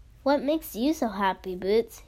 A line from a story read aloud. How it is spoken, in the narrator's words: asked